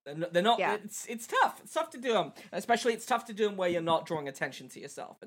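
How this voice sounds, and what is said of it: English accent. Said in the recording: “as a non-American or as someone not born from here who has an English accent”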